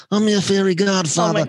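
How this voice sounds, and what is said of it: Poor imitation of another person's voice. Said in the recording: “worst Brando impression”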